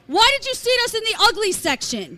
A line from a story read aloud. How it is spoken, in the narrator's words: Scary screams at the top of his lungs